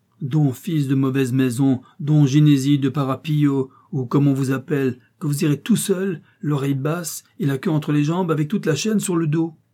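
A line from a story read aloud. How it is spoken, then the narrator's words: Furious exclamation. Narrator (French): s'écria Don Quichotte, s'enflammant de colère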